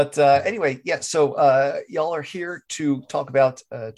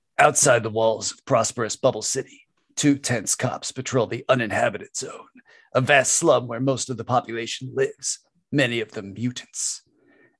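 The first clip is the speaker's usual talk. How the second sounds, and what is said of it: Gravelly movie trailer narrator voice. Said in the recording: “in my best gravelly trailer voice.”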